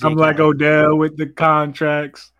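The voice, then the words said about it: Imitates another person's voice. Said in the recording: “That's my Odell impression.”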